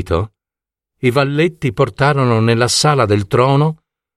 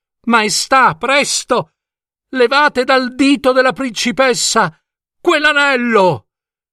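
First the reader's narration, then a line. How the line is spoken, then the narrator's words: Shouted. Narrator (Italian): gridò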